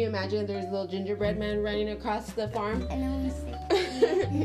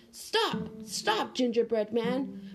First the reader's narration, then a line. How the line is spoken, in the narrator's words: A heavy old horse cried